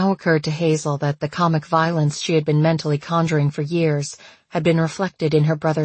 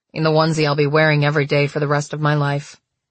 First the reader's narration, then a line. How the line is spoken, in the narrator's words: Gregory said flatly